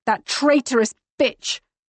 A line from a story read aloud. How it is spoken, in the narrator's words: I snarl